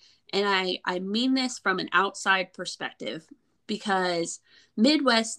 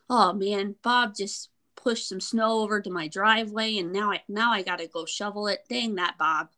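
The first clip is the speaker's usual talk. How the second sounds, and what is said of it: Put-on Midwestern American accent. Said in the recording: “Did you just turn on your Midwestern accent for that? ... Yeah, wasn't that pretty good?”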